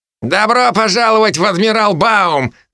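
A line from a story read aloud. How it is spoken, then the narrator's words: Laughing loudly. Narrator (Russian): захохотал Бен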